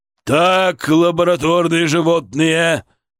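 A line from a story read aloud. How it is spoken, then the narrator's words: Barked at interns. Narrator (Russian): рявкнул он на своих интернов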